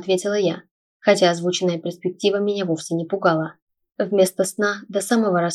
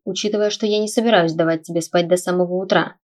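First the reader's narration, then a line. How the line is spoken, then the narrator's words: Smirking grunt. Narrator (Russian): хмыкнул Стелларий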